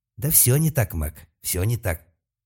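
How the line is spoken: Angry furious craftsman. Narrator (Russian): ответил все тот же мастеровой, но теперь уже гораздо более зло и яростно

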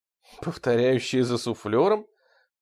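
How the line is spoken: Strained, fearful forced-smile speech. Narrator (Russian): произнес Келлин и, превозмогая страх и растерянность, выдавил из себя улыбку

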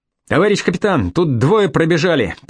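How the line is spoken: Shout, big man. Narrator (Russian): прокричал рослый сержант

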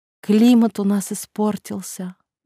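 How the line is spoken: Sigh. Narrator (Russian): вздохнула

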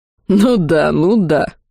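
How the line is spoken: Growl. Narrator (Russian): рыкнул

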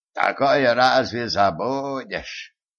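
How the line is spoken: Nostalgic sigh. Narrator (Russian): ностальгически вздохнул отец Финниган

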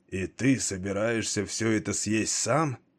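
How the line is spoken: Hoarse hungry question. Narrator (Russian): Хрипло поинтересовался он, слишком голодный, чтобы ждать приглашения

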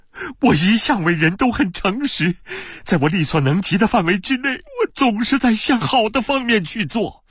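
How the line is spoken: Desperate shout. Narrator (Chinese): 布德西奥绝望地喊道

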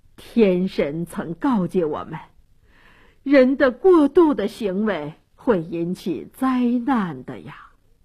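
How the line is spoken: Elders sighing. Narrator (Chinese): 这些长老都叹息地说

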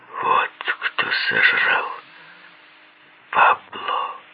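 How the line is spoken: Horrified whisper. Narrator (Russian): прошептал я в ужасе

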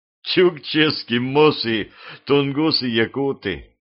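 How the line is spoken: Laughing. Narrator (Russian): рассмеялся Костя

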